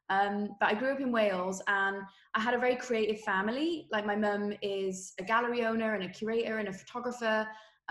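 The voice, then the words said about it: Welsh accent. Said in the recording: “hopefully still tell by my accent that I'm Welsh”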